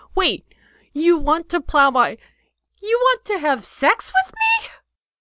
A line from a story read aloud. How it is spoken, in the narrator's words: Her voice rose to a pitch only dogs could hear